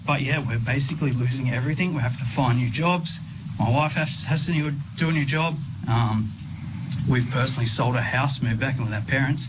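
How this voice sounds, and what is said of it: Emotional, upset voice. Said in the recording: “I'm getting a bit emotional.”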